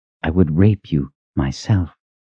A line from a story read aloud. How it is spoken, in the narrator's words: Ranson whispered in her ear